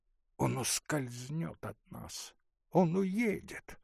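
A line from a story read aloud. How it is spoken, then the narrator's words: Sly whispering. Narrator (Russian): шептали из-под тишка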